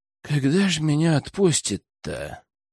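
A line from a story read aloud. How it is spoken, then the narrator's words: Tired drawl. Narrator (Russian): устало протянул Лежнев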